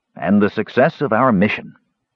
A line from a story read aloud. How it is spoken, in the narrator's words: Caramon added loudly